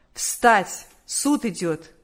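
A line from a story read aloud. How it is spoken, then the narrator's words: Commanding court officer's voice. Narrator (Russian): судебный полицейский повелительным голосом сказал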